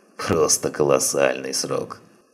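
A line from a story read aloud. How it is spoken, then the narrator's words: Mocking, abbess. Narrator (Russian): насмешливо произнесла настоятельница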